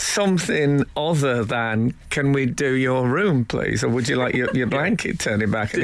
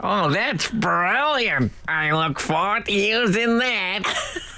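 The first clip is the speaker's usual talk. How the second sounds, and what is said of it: Imitates another person's voice. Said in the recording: “my Paris Hilton impression”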